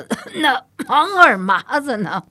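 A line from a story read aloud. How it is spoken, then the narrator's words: Laughing, coughing question. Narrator (Chinese): 太后已经笑得前俯后仰，咳嗽着问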